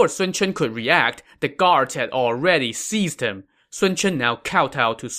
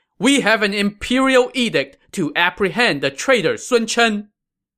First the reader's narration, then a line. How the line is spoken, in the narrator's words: they shouted